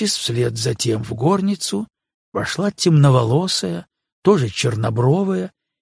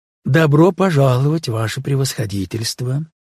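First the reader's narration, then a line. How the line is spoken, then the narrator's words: Plain. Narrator (Russian): сказала она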